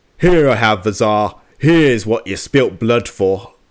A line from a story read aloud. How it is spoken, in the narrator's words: Pyotr Menchukov … bellowing